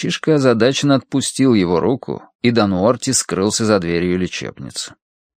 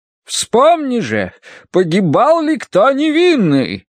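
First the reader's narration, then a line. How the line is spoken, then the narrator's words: Thundering voice. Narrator (Russian): прогремела она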